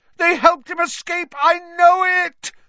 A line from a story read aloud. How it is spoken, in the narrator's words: Snape howled